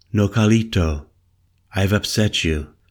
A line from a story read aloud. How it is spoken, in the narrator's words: I heard her saying to me, her voice light and almost playful